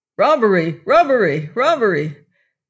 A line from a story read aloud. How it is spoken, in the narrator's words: a voice shouted close to her ear